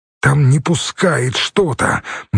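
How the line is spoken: Strained wheeze. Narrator (Russian): натужно просипел Хорь, мужественно сражаясь за миллиметры

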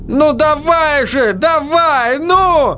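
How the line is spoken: Shouting on stage. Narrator (Russian): кричал Бартлби в выступлении

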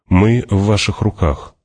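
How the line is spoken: Calm. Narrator (Russian): спокойно сказал он

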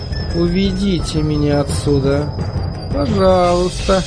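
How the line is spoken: Quiet, emotionless. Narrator (Russian): произнесла мисс Сидли тихим, бесстрастным голосом, никому не обращаясь

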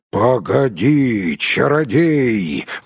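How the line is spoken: Roar. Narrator (Russian): взревел Бьорн

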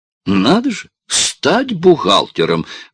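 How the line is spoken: Teacher's exclamation. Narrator (Russian): воскликнула учительница

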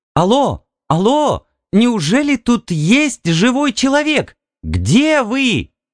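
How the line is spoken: Joyful squeal. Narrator (Russian): Она радостно взвизгнула

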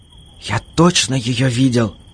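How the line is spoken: Whisper. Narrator (Russian): шептал Димка

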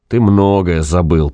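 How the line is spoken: Grumbling. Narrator (Russian): проворчал странник

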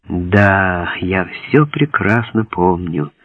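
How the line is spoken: Sad. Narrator (Russian): печально произнес я

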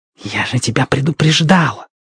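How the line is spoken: Hiss. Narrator (Russian): зашипела Сьерра на Страйка

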